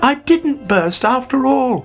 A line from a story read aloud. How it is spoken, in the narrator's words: he cried delightedly